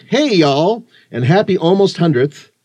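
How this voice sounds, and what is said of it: Put-on accent. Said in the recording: “I'm going to just throw a little accent in there because he said y'all.”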